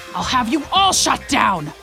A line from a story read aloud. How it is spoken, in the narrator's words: he shouted from the stage